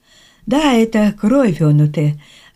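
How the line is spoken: Bewildered. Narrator (Russian): растерянно сказал Чипонис

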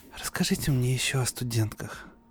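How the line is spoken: Sigh. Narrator (Russian): вздохнула Эбби

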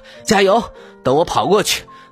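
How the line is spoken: Mumbling while running. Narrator (Chinese): 一只被狐狸追赶的小兔子…它一边跑一边嘟囔着

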